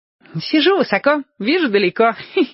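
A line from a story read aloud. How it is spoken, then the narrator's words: Giggling. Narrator (Russian): хихикнул Владик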